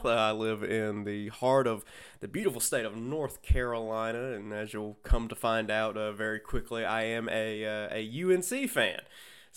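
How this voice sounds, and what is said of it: Southern American accent. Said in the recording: “you can't tell from my accent, I do live in the South”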